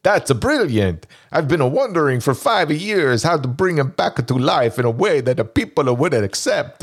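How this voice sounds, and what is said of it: Impression of Dino De Laurentiis. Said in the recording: “I'm gonna do a Dino impersonation.”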